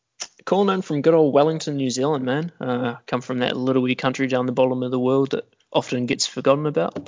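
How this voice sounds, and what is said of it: New Zealand accent. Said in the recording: “I'm sure some people can tell by the accent, but where are you calling in from today?”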